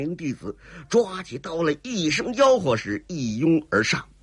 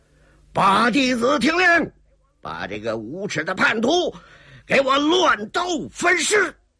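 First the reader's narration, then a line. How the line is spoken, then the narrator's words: Shouting. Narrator (Chinese): 薛老人李云飞在旁边也喊着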